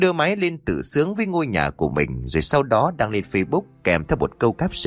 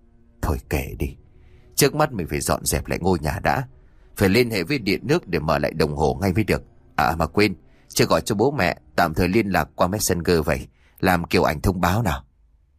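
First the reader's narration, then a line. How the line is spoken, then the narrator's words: Dazed sigh, to himself. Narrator (Vietnamese): Sau những phút bần thần, Phú lúc này khẽ thở dài rồi tự nhủ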